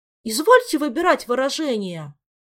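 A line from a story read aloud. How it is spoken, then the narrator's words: Indignant shout. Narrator (Russian): возмущенно выкрикнул Мафей, от негодования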